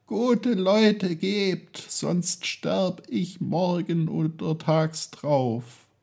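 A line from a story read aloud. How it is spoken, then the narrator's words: Pleading. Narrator (German): fleht er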